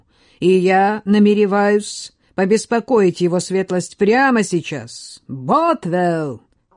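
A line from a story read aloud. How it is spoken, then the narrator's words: Roar at full volume. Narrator (Russian): проревел он, что есть мочи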